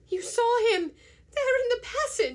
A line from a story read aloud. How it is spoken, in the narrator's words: she cried